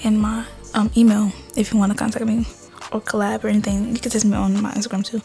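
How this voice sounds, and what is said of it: Out of breath, breathy speech. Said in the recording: “man, I'm out of breath.”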